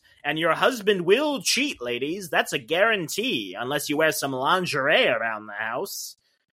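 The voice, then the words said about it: Imitated old-fashioned man's voice. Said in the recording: “This is a really good impression.”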